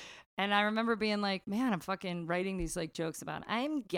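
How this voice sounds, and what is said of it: Usual voice. Nothing is said of it.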